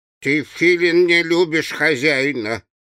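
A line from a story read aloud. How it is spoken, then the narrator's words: Grumbling. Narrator (Russian): ворчала шкура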